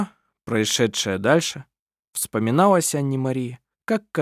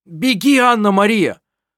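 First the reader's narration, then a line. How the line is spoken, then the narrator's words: Shout. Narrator (Russian): крикнул он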